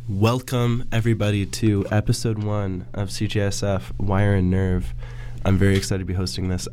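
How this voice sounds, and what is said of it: Voice affected by a cold. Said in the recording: “can tell by my voice,... I'm recovering from a cold right now.”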